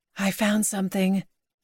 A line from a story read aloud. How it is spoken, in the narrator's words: whispered